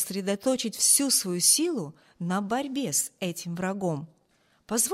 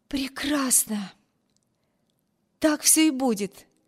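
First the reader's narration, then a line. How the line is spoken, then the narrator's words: Joyful young woman's exclamation. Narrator (Russian): воскликнула девушка, сияющим лицом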